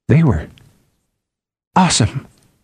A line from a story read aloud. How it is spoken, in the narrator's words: he whispered